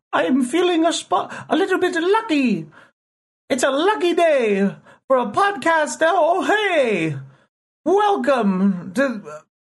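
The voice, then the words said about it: Weak Irish accent drifting British. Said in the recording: “I don't know how to do an Irish accent. ... Horribly ... It just becomes British when I do that. ... I don't think that was that bad. I mean, I think that was pretty okay.”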